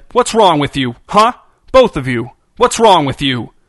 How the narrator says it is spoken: in his most authoritative, menacing voice, said

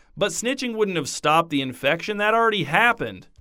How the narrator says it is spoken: a girl called out

